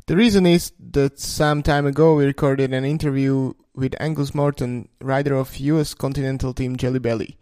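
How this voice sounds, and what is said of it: Eastern European accent in English. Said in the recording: “my beautiful Eastern European English accent”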